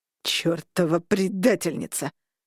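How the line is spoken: Growled. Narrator (Russian): прорычал Винсент, увидев Викторию

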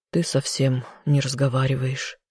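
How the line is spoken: Worried sigh. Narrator (Russian): вздохнул он, не скрывая своего беспокойства

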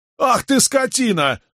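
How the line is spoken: Yell. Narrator (Russian): заорал парень

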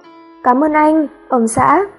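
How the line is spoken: Gentle reply. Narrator (Vietnamese): nhẹ nhàng đáp

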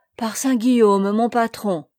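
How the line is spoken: Amazed exclamation. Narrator (French): s'écria-t-il émerveillé

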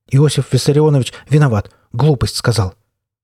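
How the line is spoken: Coughing, nervous rapid speech. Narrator (Russian): Проханов закашлялся и нервно затараторил

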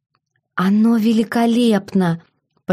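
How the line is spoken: Hoarse, struggling wheeze. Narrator (Russian): прохрипела я, потому что слова все еще давались с трудом

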